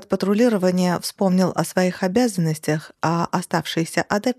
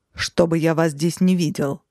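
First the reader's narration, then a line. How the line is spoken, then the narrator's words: Growling. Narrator (Russian): рыкнул высший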